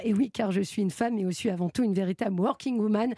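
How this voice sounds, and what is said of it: Bad put-on English accent. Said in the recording (French): “Avec un accent anglais dégueulasse.”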